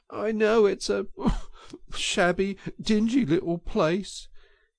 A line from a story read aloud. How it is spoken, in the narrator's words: he sobbed forth at last brokenly